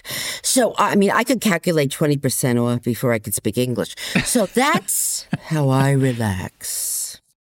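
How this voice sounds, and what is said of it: New Jersey accent. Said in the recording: “Based on my accent, you're going to realize I'm from New Jersey.”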